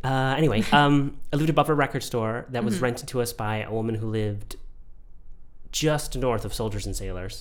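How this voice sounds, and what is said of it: Congested voice from a cold. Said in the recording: “I have a bit of a cold”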